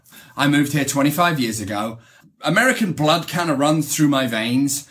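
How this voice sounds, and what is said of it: Strong British accent. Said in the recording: “my very, very, very strong British accent ... I still have a very strong British accent”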